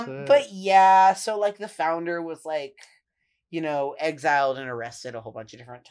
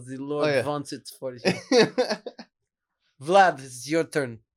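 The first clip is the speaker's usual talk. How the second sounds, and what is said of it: Put-on Russian accent. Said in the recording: “It'd have to be in a Russian accent, though.”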